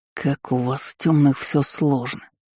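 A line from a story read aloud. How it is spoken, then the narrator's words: Drawling. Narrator (Russian): протянул собеседник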